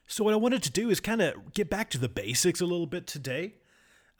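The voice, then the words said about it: Hillbilly accent. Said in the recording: “my wonderful hillbilly accent”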